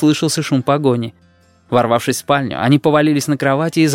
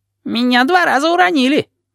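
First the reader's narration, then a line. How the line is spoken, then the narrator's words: Squeak. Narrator (Russian): пискнул Ванючка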